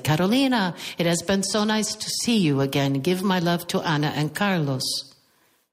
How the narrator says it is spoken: raising his voice, he said

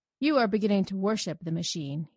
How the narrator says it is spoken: he said coldly

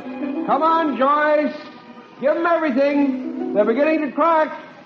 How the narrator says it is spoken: one voice called out

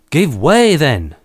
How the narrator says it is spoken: cried the captain

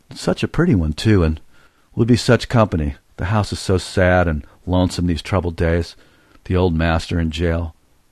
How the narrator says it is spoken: She sighed, murmuring

